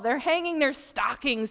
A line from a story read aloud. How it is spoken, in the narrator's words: he snarled with a sneer